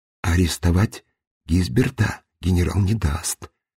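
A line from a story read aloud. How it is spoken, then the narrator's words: Quiet. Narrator (Russian): тихо сказал Сергей Иванович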